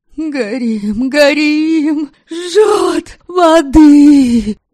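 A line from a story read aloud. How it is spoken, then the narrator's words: Choking hoarse shouts. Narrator (Russian): Задыхаясь и хрипя, пытались кричать они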